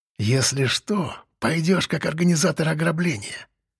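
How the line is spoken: Whisper. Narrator (Russian): прошептал Зубатый

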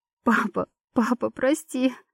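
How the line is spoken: Sobbing. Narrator (Russian): Всхлипывала я

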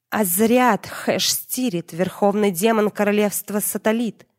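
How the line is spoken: Hissed. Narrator (Russian): прошипела я

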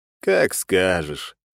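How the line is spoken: Lazy. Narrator (Russian): лениво ответил ему

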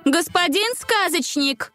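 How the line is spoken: Loud call. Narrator (Russian): Громко позвала она

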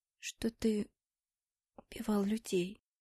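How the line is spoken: Voice breaking into whisper. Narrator (Russian): Мой голос снова сорвался на шепот

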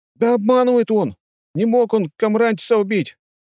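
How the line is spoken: Shouted out. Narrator (Russian): выкрикнул кто-то

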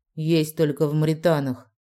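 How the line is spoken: Through gritted teeth. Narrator (Russian): процедил Дезмонд

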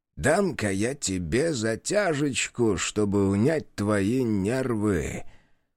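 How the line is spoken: Old man speaking. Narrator (Russian): сказал старик

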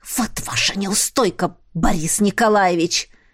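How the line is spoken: Hissing in face. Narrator (Russian): прошипела ему в лицо

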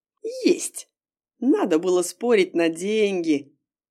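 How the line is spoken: Giggling. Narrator (Russian): хихикнула она

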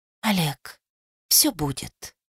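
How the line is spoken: Whisper. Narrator (Russian): прошептала

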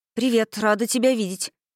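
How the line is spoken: Hurried. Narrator (Russian): торопливо сказала Ивон

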